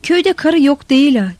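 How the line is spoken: Loud ringing shout. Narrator (Turkish): diye bağırışı ortalığı çınlatıyordu

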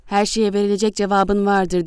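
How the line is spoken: Shouting. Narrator (Turkish): diye bağırdı Kora

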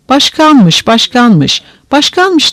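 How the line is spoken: Young men shouting together. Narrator (Turkish): diye bağırışarak delikanlılar

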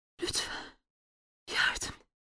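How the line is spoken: Strained whisper. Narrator (Turkish): diye fısıldamayı başardı

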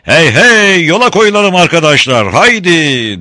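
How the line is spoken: Shouted. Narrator (Turkish): diye bağırdı Hayatal

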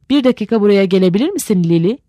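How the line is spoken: Plain, a brother. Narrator (Turkish): dedi erkek kardeşi

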